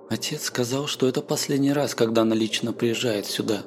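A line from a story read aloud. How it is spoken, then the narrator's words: Quiet voice. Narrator (Russian): тихим голосом сказала Бриеша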